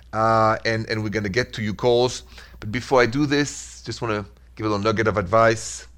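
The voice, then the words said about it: Thick French accent. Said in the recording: “That's why the accent is so thick ... the accent, they never left me”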